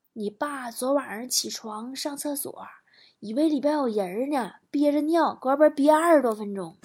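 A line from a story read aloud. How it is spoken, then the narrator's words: Mother whispering. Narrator (Chinese): 老妈在我耳边小声的说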